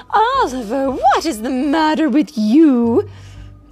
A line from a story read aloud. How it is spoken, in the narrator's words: cried Miss Tilly